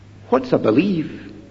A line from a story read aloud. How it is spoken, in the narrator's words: under their breath they're asking